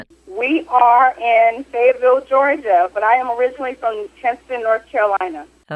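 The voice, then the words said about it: Noticeable regional accent. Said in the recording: “where are you located with that accent?”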